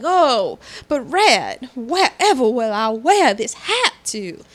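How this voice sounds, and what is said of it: Exaggerated Southern US accent. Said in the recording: “I sound way more Southern than she did”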